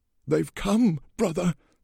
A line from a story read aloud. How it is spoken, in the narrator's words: he croaked, in excitement